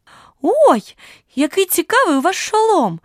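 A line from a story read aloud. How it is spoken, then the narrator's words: Cheerful exclamation. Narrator (Ukrainian): бадьоро вигукнула вона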